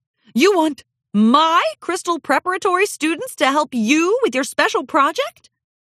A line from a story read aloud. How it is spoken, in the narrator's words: Ruby Jubilee squealed with delight